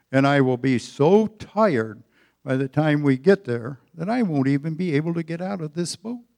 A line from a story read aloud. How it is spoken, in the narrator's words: grumbled